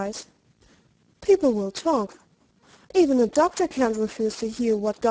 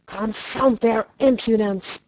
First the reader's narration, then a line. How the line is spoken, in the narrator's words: growled Ransford